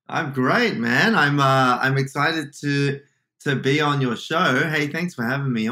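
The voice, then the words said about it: Australian accent. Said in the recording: “You grew up in Sydney. That's the accent I'm hearing.”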